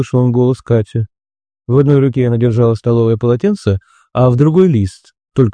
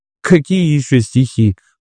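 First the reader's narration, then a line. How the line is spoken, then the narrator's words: Laughing. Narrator (Russian): засмеялся Семен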